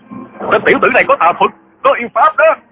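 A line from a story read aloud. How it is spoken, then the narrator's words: Frightened angry clamoring crowd. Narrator (Vietnamese): Cả đám hòa thượng vừa sợ vừa tức, nhao nhao hò hét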